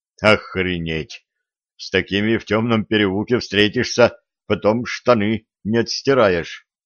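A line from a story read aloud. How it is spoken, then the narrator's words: Puffed-up muttering. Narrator (Russian): надуваясь, пробормотал он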